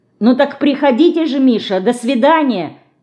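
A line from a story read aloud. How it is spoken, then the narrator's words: Calling out from doorway. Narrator (Russian): крикнула она уже в дверях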